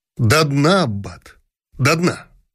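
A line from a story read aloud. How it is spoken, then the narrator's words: Said sternly. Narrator (Russian): строго сказал император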